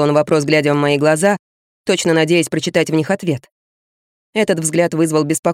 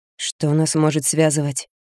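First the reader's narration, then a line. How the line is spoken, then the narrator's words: Barely audible mumble. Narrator (Russian): Промямлила чуть слышно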